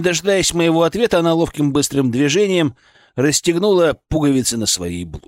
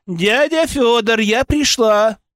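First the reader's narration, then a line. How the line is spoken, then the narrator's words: Shouted. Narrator (Russian): крикнула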